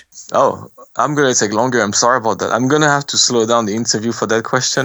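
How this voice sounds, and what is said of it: French accent. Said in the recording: “We use my French accent.”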